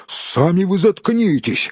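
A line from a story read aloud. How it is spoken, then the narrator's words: Snapping retort. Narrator (Russian): огрызнулся Том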